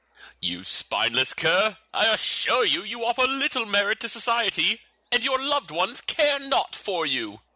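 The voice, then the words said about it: Put-on posh British accent. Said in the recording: “it's kind of hard to hate that accent ... that accent ... arbitrarily British”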